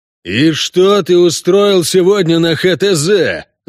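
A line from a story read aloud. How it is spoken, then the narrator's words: Yelling. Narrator (Russian): заорал техник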